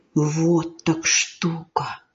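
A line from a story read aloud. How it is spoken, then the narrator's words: Boy's astonished whisper. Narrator (Russian): мальчик изумленно шепотом сказал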